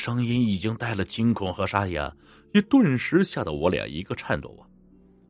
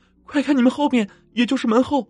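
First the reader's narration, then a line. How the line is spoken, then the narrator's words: Startled cry over radio. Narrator (Chinese): 手台里面车上总部忽然惊叫了一声，说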